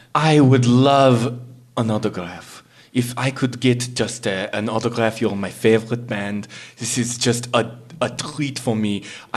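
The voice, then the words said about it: Peculiar foreign-sounding accent. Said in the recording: “you're hearing this guy's accent. You got a peculiar accent, man... Are you from are you French or German, man?”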